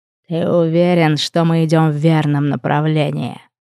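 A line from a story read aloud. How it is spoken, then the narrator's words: Hoarse croak, rider. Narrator (Russian): хрипло прокаркал один из всадников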